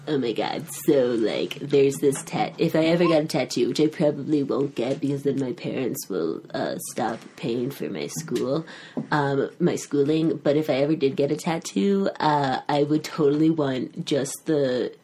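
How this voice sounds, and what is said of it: Imitates another person's voice. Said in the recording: “I do a Kelly impersonation”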